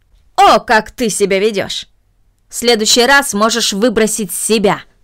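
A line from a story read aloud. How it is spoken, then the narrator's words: Angry. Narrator (Russian): произнесла мисс Мина, сердито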